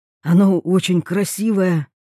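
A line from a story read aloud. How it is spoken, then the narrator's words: Hoarse. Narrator (Russian): хрипло говорит Андрей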